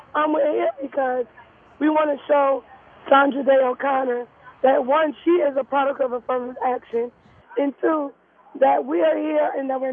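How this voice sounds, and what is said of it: Hoarse voice. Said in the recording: “Please excuse my hoarse voice. We've been out here all night.”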